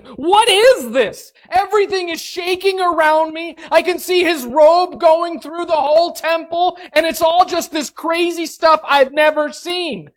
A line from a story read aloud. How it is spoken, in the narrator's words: screaming